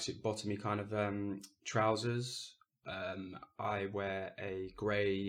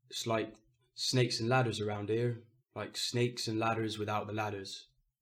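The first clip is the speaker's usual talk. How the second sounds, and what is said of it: Cornish accent. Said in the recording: “I'm doing an accent because Paul is from Cornwall. An example of this would be”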